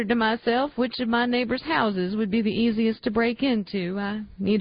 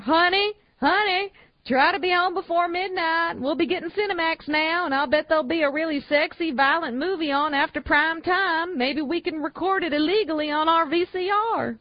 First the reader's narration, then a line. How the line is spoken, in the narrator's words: I yelled after her